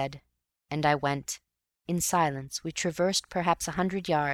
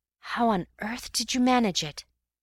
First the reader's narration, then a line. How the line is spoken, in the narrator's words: At last I whispered